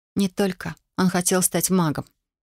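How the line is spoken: Calm answer. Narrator (Russian): ответила я спокойно

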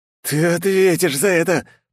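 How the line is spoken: Hissing threat. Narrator (Russian): прошипел одаренный

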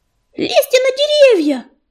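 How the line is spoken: Shrill squeal. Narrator (Russian): завизжал ежевика

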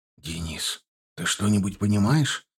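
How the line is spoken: Quiet question. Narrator (Russian): тихонько спросил Аржанов

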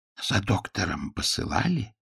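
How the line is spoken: Whispered question. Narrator (Russian): шепотом спросил Пуаро

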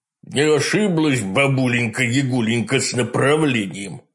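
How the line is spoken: Satisfied growl, wolf. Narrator (Russian): удовлетворенно прорычал волк Митя

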